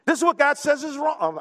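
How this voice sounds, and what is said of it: Shouting preacher. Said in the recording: “I know I'm shouting.”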